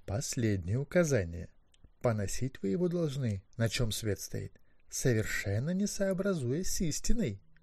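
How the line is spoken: Quiet command. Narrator (Russian): тихо велел Маккехт

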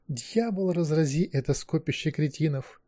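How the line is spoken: Muttered. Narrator (Russian): пробормотал рафинированный аристократ Кервин Квирт

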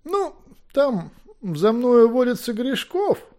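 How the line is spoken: Mumbling. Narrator (Russian): замямлил Макбех

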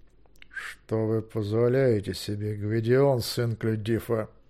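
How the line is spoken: Through gritted teeth. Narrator (Russian): начал сквозь зубы Змейк

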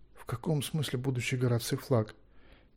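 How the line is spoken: Quiet question. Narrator (Russian): тихонько спросил Гвидион

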